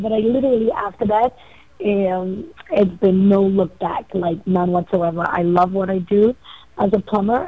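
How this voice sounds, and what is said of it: Trinidadian accent. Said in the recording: “I heard that accent. I'm like, she's my Trini sister right there.”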